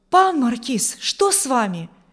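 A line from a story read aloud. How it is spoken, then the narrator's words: Frightened exclamation. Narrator (Russian): воскликнул Урзин испуганно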